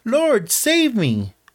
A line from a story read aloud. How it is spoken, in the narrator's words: He cried